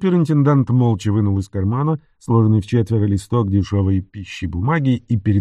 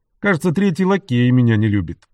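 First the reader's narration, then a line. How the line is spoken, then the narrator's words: Cheerful. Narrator (Russian): весело ответил Энтони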